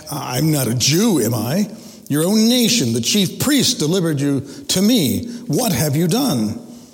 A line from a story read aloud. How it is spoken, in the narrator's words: Pilate snaps back